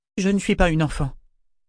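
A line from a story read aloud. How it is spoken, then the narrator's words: Cold assertion. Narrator (French): affirma Malta froidement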